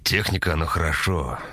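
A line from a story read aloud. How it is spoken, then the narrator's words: Sighing. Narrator (Russian): вздохнул Степан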